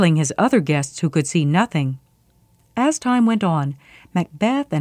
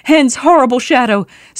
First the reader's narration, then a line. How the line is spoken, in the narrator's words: He shouted